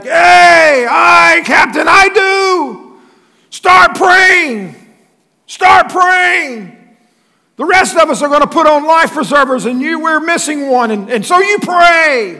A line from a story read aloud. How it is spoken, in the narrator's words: this one voice hollers back